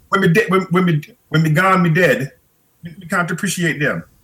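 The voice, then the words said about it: Put-on Jamaican accent. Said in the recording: “She would say in her Jamaican accent.”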